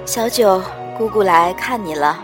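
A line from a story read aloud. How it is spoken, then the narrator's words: Wistful, melancholy. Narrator (Chinese): 我怅然道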